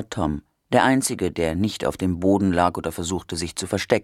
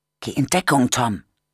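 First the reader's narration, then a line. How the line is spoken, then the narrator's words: Whispered. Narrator (German): flüsterte Rose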